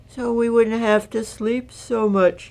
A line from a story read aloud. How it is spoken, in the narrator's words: yawned Roo